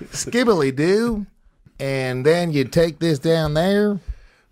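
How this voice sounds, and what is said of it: Put-on southern accent. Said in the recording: “I don't know why I turned into a southern accent.”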